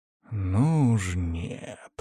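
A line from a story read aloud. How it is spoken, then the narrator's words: Growled. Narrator (Russian): прорычал я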